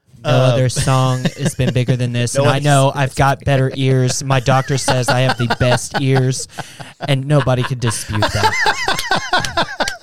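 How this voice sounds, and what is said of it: Donald Trump impression. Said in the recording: “a pretty damn good Donald Trump impression.”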